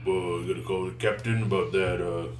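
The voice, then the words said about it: Exaggeratedly deep voice. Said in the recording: “I'm not doing the voice really. I'm just making it really deep.”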